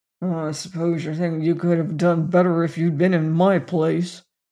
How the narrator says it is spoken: Peter grumbled

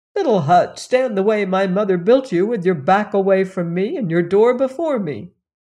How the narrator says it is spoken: the prince cried

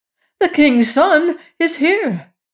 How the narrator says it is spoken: cried the queen

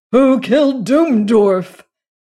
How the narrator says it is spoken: he cried

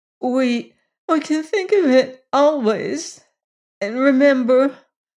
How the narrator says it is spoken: sobbed Bess

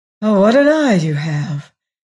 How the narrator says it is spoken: he cried with a sigh of relief

